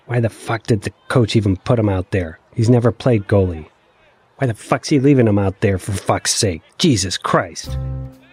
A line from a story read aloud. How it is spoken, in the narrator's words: my rage built and built, and I hissed